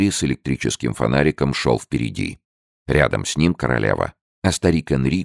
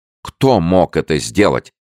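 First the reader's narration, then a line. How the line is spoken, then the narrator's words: Queen's indignant exclamation. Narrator (Russian): возмущенно воскликнула королева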